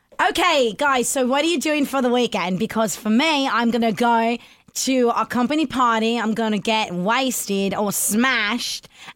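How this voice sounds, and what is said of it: Put-on accent. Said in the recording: “will just go into the accent”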